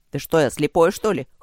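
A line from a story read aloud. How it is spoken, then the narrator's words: Short laugh. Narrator (Russian): хохотнул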